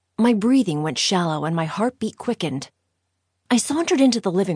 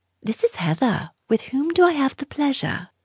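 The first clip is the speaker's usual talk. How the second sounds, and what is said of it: Put-on British accent. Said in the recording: “using my best British accent”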